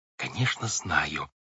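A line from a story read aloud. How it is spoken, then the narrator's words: Whispered reply. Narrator (Russian): также шепотом ответила Вайолет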